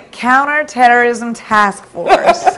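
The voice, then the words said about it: Put-on American accent. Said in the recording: “Am I going to get that damned American twang right? ... God, that American accent was killing me.”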